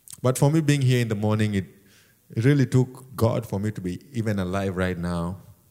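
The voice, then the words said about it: Non-native English accent. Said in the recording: “as you can tell from my accent, I'm not from around here ... it's my accent”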